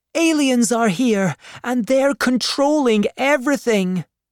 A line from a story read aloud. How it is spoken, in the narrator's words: shouted Amy